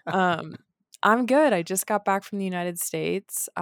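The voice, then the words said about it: Raspy morning voice. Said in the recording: “this is my sexy, raspy morning voice”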